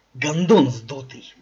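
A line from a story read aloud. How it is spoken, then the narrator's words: Hiss. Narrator (Russian): прошипел ему Имс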